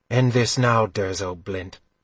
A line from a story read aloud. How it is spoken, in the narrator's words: Guinevere had told him quite calmly